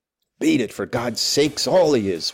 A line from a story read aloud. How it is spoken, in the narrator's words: whispered Hegland excitedly